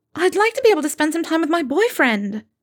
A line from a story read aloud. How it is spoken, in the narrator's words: Alicia, who immediately blurted